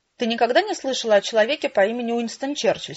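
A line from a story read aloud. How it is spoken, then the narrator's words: Plain question. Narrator (Russian): спросил отец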